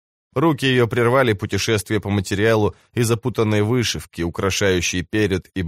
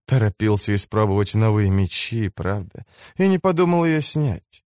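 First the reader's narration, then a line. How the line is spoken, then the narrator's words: Sighing. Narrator (Russian): вздохнула она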